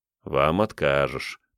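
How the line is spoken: Grumbling. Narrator (Russian): пробурчал я

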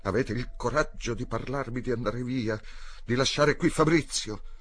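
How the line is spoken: Almost shouting. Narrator (Italian): gli disse, quasi gridando

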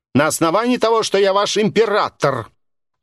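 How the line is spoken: Shouting. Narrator (Russian): Кирилл Владимирович буквально кричал

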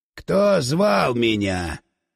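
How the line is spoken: Booming disembodied voice. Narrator (Russian): Прогудел в голове бесплотный голос

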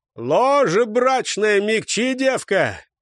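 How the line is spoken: Shout. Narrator (Russian): крикнул Чаяни

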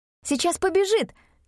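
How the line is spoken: Exclaiming. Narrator (Russian): воскликнула Мин

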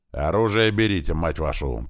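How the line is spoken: Growled. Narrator (Russian): прорычал Клёпа

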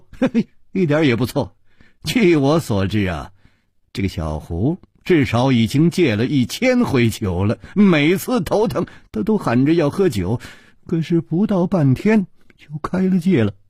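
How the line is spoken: Amused chuckle. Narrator (Chinese): 楚留香也不禁失笑说

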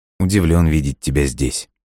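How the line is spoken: Quiet. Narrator (Russian): тихо произнес он

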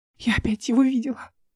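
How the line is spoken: Tearful. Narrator (Russian): Сквозь слезы сказала она

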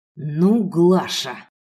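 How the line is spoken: Man's hiss. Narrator (Russian): прошипел мужчина

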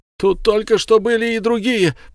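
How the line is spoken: Farmer shouting. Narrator (Russian): прокричал фермер

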